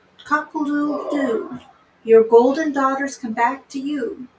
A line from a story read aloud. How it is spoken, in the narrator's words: the cock, who was perched on the well, called out